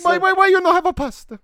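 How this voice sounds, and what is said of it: Put-on Italian accent. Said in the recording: “you can do Italian accents all you want ... How do I do an Italian accent? Do one real quick.”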